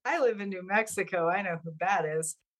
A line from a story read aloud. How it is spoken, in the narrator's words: laughed and I said